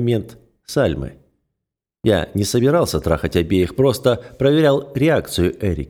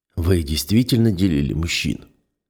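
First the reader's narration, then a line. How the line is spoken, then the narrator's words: Hoarse question. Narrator (Russian): хрипло спрашиваю я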